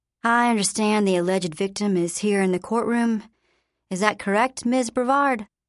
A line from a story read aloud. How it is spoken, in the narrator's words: The judge, a peaceful old gentleman, asked calmly